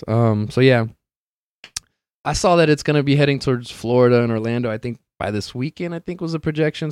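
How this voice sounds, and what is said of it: Strained, worn-out voice. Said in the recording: “goddamn, I'm losing my voice here. I was talking for 2 hours.”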